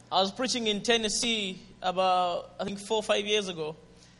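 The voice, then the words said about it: Zambian English accent. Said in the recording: “Is my accent, Zambian accent, okay?”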